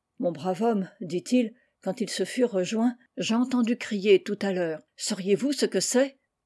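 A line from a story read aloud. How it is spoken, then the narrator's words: Drunken railwayman's voice. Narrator (French): Le cheminot d'une voix avinée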